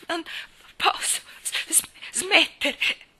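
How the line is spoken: Panting man. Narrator (Italian): ansimò lui

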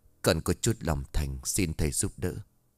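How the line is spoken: Soft murmur. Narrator (Vietnamese): thủ thỉ

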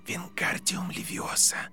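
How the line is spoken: Very quiet whisper. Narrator (Russian): как можно тише прошептал Гарри

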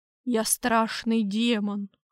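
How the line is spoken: Hoarse rasp. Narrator (Russian): прохрипел я

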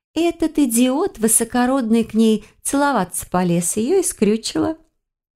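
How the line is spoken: Giggle. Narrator (Russian): хихикнула

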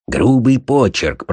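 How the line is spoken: Mumbling. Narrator (Russian): пробормотал Холмс

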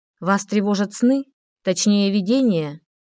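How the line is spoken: Calm question. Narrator (Russian): Спокойно задала вопрос та

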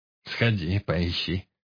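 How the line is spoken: Snorting. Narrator (Russian): хмыкнул Баркас

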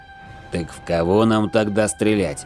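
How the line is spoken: Grumbling middle-aged soldier. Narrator (Russian): ворчал с бронемашины весь в шрамах вояка лет 45

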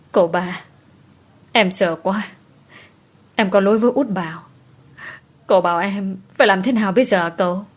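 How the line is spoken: Sobbing, bursting into tears. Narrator (Vietnamese): Cô nức nở òa khóc trước mặt của anh

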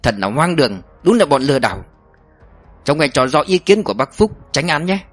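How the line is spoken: Harsh, gritted voice. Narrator (Vietnamese): Ông Hoàng gằn giọng

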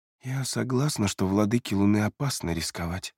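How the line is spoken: Quiet. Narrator (Russian): тихо произнесла она

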